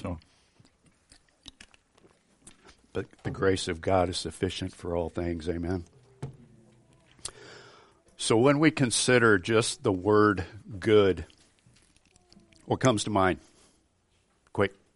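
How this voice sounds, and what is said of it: Strained voice from illness. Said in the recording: “excuse my voice and throat. I'm fighting off the stuff going around”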